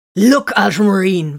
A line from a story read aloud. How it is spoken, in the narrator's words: Viren snapped